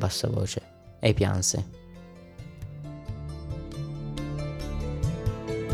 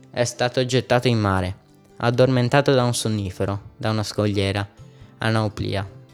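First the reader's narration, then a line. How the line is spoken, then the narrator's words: Plain. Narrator (Italian): disse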